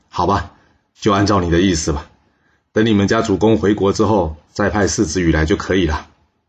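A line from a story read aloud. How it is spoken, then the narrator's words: Smiling. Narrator (Chinese): 秦穆公笑着说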